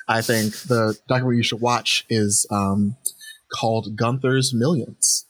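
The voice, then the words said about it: Mock-serious voice. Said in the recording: “This is my serious voice.”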